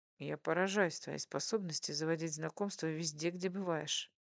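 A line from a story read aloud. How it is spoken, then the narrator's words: Plain. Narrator (Russian): сказал муж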